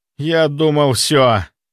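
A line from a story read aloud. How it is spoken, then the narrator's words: Dejected voice. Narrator (Russian): упавшим голосом произнес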